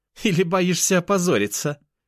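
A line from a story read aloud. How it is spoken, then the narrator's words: Nasty laugh. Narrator (Russian): Мерзопакостно рассмеялась она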